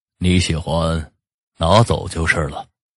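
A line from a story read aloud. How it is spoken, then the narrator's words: Calm, indifferent old man. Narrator (Chinese): 老人淡淡的说道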